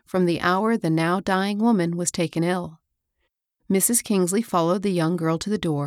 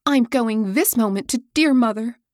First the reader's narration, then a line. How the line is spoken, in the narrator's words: cried Hilda